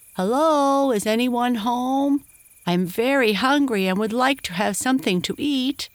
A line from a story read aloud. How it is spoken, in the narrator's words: called out